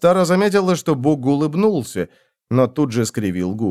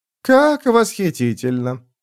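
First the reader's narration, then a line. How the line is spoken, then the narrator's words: Purring. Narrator (Russian): промурлыкал король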